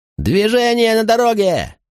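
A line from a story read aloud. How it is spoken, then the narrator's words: Shouting. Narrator (Russian): крикнул Септим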